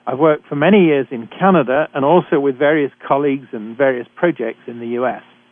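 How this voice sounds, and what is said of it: British English accent. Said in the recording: “I'm a physician trained in Britain, as I'm sure you can tell from my accent.”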